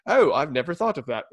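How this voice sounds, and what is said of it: Put-on British accent. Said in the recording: “I don't know why guys have a British accent”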